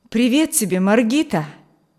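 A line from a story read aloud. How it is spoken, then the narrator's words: Exclaimed. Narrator (Russian): воскликнул он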